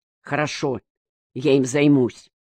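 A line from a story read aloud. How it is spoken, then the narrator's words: Calmer tone. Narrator (Russian): уже более спокойным тоном сказал Гальвицер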